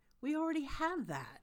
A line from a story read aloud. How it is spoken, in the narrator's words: Crowley exclaims